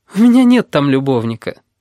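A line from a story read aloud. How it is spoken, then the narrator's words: Serious after laughing. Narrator (Russian): говорит русалка, перестав смеяться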